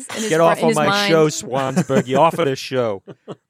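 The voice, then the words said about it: Very bad put-on Boston accent. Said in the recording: “really bad, I don't know, TV sitcom Brooklyn Cabbie ... In a world where there are many, many bad Boston accents, that is just one of the worst I've ever heard.”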